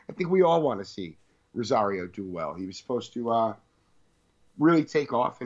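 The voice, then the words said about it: Hoarse, fading voice. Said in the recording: “I'm kind of losing my voice right now.”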